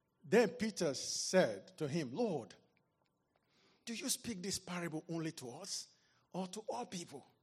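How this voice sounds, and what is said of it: Nigerian English accent. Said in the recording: “I may not be pronouncing it like an American ... you have the Nigerian accent. I'm proud to be one.”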